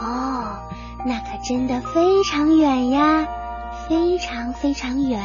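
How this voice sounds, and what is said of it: Usual voice. Nothing is said of it.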